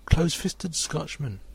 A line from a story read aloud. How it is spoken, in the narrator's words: Johnson cried to thrifty J